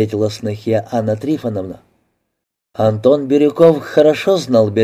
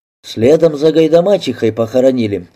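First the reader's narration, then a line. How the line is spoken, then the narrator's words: Plain. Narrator (Russian): ответил Арсентий Ефимович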